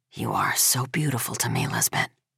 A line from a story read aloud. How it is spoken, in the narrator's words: whispering